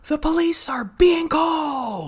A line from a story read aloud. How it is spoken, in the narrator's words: Sabrina, in like the most triumphant hero voice ever, just says out the window, she like yells, she goes